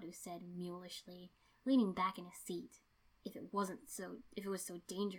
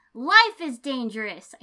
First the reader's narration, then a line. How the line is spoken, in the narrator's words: I screamed at him, voice cracking